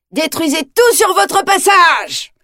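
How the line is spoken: Ecstatic shout. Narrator (French): crie le seigneur des ténèbres, fou de joie

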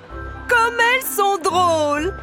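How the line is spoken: Laughing. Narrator (French): dit l'éléphante en riant

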